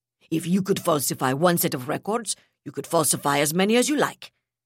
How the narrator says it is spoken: replied harshly

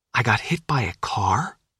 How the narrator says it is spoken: Sophia whispered

